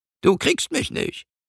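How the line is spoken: Squeaky voice. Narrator (German): ertönt eine piepsige Stimme

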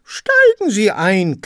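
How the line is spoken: Parrots screeching. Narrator (German): kreischten die Papageien

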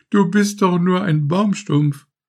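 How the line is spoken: Laughing flower. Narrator (German): lachte die Christrose

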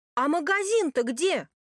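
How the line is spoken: Hopeless shout. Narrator (Russian): крикнул, уже не надеясь на ответ

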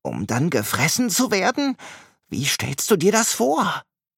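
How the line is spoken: Horrified whisper. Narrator (German): flüstert entsetzt

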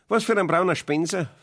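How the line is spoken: Sudden sharp question. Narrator (German): fragte mit einmal Ursula und fragte sehr scharf

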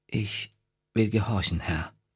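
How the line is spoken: Quiet. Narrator (German): sagte leise

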